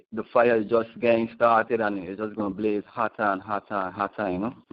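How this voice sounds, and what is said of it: U.S. Virgin Islands accent. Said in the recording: “where's your accent from? ... I'm from the um the U.S. Virgin Islands, St. Thomas exactly.”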